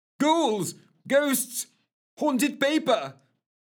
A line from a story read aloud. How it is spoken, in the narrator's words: screamed, his mad yelling